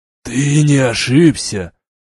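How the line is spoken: Hoarse, furious question. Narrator (Russian): хриплым и полным ярости голосом спросил Кар

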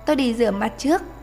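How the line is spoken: Light laugh. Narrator (Vietnamese): Chàng Loan Thần bật cười khẽ

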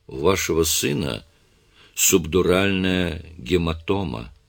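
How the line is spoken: Plain. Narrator (Russian): сказал доктор Моррис

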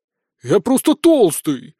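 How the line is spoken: Offended wizard's reply. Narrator (Russian): обиженно ответил волшебник

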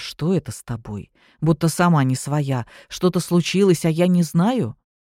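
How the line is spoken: Surprised quiet question. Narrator (Russian): удивленно спросил тихо

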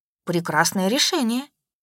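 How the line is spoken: Said calmly. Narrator (Russian): спокойно выдала я

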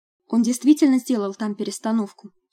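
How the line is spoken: Plain. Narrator (Russian): сказала я

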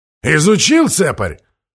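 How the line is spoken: Guest snorting. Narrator (Russian): хмыкнул гость

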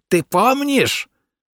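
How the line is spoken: Delighted shriek. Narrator (Russian): визжал в восторге евнух

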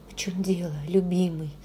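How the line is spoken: Whispered. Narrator (Russian): прошептала я

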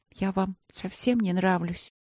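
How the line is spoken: Sad question. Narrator (Russian): грустно спросила принцесса

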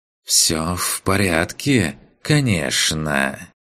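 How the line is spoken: Openly ironic hiss. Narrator (Russian): В шипении Рииса послышалась ничем не прикрытая ирония

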